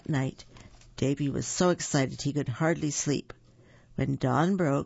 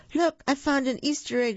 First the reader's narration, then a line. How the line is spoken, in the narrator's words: cried